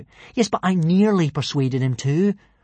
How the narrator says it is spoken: replied Hiccup eagerly

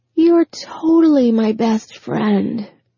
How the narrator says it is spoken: Anne's words slurred slightly

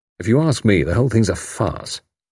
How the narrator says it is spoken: He added gloomily

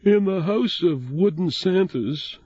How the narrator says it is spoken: she said sleepily

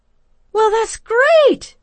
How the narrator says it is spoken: Chrissy exclaimed

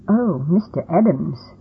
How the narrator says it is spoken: I stammered

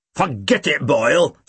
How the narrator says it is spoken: Snape snapped

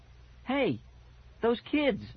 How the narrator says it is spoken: I cried

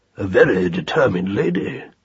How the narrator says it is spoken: he said in his deep tones

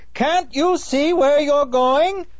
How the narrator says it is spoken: Ali Baba angrily shouting

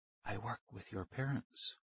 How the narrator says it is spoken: he said softly

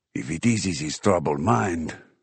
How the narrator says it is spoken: Ramos reminded me in a near whisper

